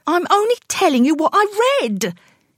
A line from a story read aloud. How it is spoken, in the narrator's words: he said, his voice rising in frustration